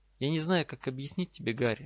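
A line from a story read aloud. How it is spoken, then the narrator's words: Soft and sad. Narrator (Russian): мягко и печально ответила Гермиона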